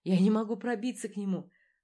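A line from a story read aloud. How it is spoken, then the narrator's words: Hurried, near sobbing. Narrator (Russian): говорила она торопливо, чуть не рыдая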